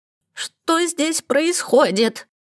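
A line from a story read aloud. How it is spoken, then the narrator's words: Sharp shrill outraged female voice. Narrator (Russian): ворвалось резкое и визгливое в полнейшем возмущении, женское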